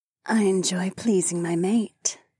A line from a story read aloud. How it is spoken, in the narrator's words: the saber-toothed woman purred